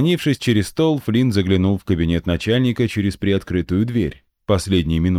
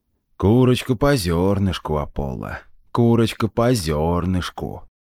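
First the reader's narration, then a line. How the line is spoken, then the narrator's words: Grumbling. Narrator (Russian): ворчал глава Меридиана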